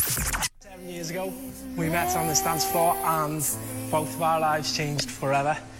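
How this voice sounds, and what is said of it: Strong Liverpool accent. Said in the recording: “has a really strong Liverpool accent”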